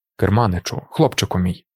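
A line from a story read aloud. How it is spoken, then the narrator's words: Quiet. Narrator (Ukrainian): тихо промовив Тефт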